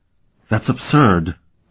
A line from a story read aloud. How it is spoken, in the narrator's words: Orissa cried